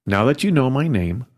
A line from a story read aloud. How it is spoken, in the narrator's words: Hada said calmly